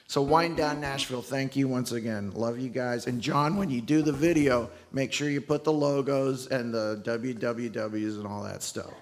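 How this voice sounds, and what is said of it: Strained, failing voice. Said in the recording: “my voice is giving out. That's messing me up.”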